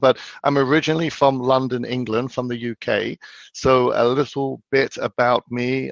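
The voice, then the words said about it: Croaky, partly lost voice. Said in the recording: “Sorry if I sound a little croaky. I actually lost my voice over the weekend. ... A lot of shouting going on.”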